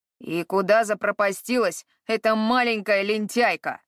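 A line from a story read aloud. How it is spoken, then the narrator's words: Master's angry grumble. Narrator (Russian): сердито бурчал хозяин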